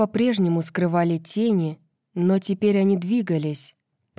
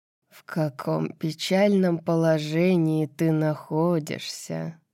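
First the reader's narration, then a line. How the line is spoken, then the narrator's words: Purring. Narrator (Russian): промурлыкал принц Ямы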